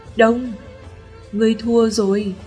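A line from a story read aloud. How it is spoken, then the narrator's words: Sighing. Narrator (Vietnamese): Nữ tử xinh đẹp ấy thở dài nói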